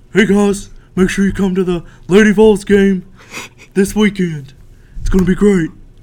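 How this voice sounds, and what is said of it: Imitates another person's voice. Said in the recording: “that's my Tyler Wombles impression”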